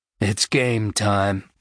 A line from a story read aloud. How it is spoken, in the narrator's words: the corporal said tightly